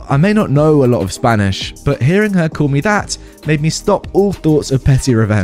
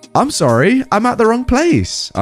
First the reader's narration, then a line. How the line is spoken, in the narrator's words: I shouted